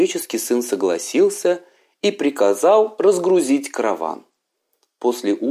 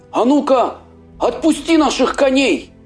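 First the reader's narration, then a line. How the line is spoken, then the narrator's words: Young man shouting. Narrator (Russian): закричал юноша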